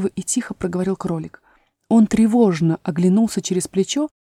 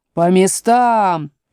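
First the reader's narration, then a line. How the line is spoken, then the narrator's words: Thundering queen. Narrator (Russian): прогремела королева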